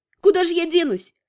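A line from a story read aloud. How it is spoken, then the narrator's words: Snapping. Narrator (Russian): огрызнулась я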